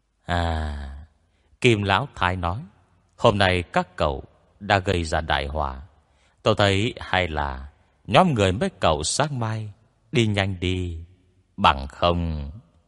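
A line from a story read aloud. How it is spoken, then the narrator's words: Sighing. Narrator (Vietnamese): Ngô Tam Thúc thở dài một tiếng, lại nói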